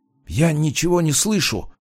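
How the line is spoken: Whispered. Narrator (Russian): прошептал Жак

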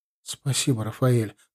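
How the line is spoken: Whisper. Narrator (Russian): прошептала она

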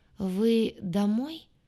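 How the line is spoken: Unsteady voice. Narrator (Russian): спросил он неверным голосом

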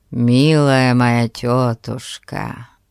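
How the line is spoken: Affectionate. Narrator (Russian): Проговорил он, ласково

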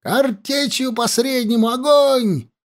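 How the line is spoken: Shouted. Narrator (Russian): прокричал лейтенант

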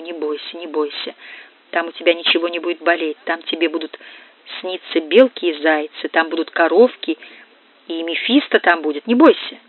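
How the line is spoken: Soothing whisper. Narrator (Russian): А она шептала ему

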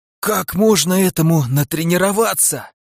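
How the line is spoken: Hoarse, trembling. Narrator (Russian): прохрипел я, стараясь унять дрожь во всем теле

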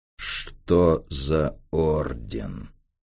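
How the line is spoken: Menacing repeat. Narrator (Russian): Грозно повторил он свой вопрос

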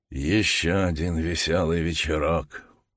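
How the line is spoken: Muttered. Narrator (Russian): пробормотал Джордж

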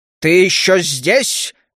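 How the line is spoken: Menacing question. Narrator (Russian): грозно спросил я у Кая

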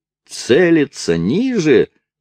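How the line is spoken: Yelled. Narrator (Russian): завопил Керби

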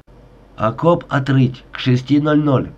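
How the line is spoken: Stern reminder. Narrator (Russian): строго напомнил капитан

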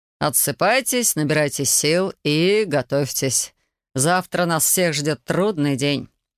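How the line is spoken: Plain. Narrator (Russian): сказал

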